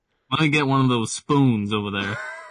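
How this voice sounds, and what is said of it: Drawn-out, over-elongated pronunciation. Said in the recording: “I just overpronunciate words longer than they need to be pronounced... it takes like a whole second and a half to say spoon... It sounds like saying something way longer than it needs to be said.”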